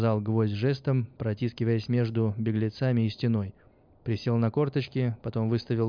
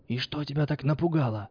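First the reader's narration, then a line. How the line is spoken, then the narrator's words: Whispered question. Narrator (Russian): спросил он шепотом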